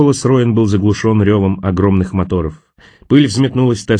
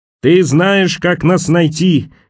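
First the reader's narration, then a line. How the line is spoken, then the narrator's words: Shouted reply. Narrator (Russian): крикнула она в ответ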